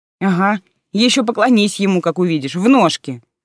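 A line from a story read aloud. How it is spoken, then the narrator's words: Scornful snort. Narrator (Russian): фыркнула Алиса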